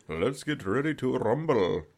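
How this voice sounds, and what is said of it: Put-on Indian accent. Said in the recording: “My Indian guy accent.”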